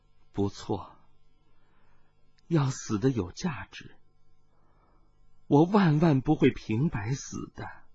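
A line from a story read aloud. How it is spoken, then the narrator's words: Murmured. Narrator (Chinese): 水灵光喃喃地说道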